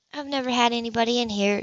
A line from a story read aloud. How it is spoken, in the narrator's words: she said quietly